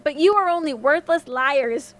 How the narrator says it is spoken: he said angrily

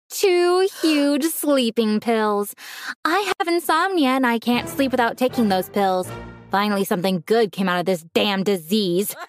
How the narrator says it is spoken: she said, belting out a laugh

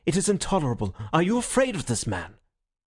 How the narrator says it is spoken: he cried

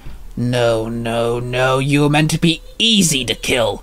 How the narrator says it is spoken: Morgana Noir snarled

